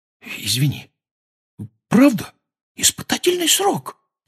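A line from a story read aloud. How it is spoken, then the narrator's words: Whispered repetition. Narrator (Russian): повторил он шепотом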